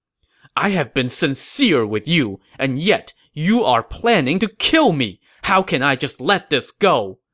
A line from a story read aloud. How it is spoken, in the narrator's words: Gao Ding said angrily